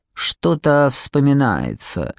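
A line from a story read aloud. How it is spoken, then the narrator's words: Cold grumble. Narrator (Russian): холодно проворчала Морвин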